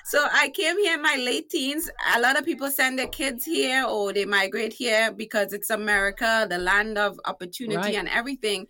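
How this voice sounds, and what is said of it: Trinidadian accent. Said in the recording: “from one of the greatest islands on earth called Trinidad and Tobago, hence my accent. And it's also one of the sexiest accents you will ever”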